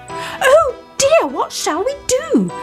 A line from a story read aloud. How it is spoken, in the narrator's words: they all cried